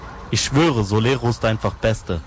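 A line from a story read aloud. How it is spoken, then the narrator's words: Plain. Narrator (German): sagte der eine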